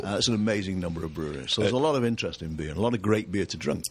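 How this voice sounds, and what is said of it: English accent. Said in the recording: “We thought you were in England... You can tell by the accent... a very typical UC Davis accent”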